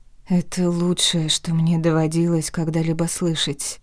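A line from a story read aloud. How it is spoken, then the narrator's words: Hushed awed whisper. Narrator (Russian): прошептала я, боясь нарушить сладкую эйфорию, воцарившую внутри меня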